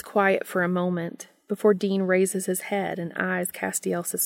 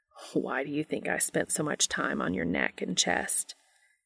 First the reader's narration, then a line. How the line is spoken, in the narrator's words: Castiel chuckles softly